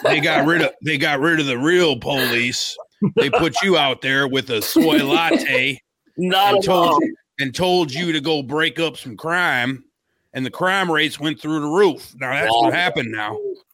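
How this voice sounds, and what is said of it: Put-on MAGA character accent. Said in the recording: “Let me turn into MAGA Dutch ... not the accent.”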